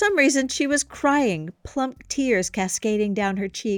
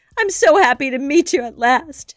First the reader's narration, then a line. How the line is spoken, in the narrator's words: she sobbed